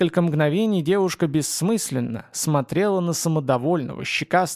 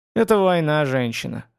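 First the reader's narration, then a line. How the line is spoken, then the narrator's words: Haughty snort. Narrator (Russian): свысока хмыкнул колдун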